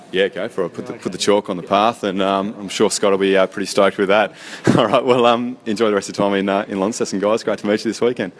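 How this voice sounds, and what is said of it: Polished radio-style voice. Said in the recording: “He's got quite the radio voice”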